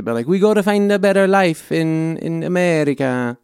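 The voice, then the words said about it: Clumsy Greek accent, Mario-like. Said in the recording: “I don't know how to do a Greek accent ... It's a Mario.”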